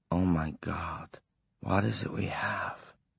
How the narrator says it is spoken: Wyzak whispered

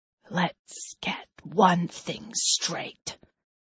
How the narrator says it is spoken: he says, his voice barely above a whisper

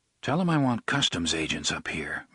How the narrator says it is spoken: MacDonald said quietly

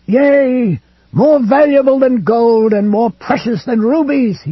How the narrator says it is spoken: he screamed

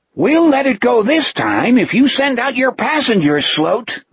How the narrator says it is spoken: the Etheridge thing yelled up

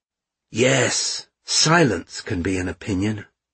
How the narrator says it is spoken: said Mishka

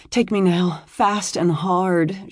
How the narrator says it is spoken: she moaned

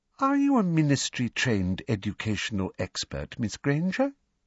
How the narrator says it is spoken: asked Professor Umbridge in her falsely sweet voice

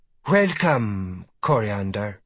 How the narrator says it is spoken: she says, her voice warm and sweet like honey in summer

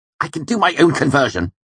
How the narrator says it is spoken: he snapped

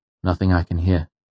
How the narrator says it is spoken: I said

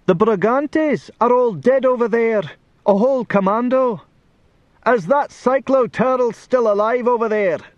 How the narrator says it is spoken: somebody shouted

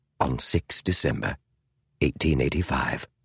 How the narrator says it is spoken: Holmes said quietly

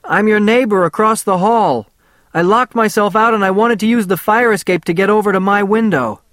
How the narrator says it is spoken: From outside, I shouted

